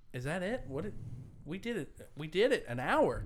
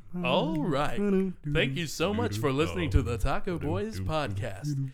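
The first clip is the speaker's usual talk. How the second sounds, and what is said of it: Announcer-style radio voice. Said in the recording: “I always have to go into my radio voice.”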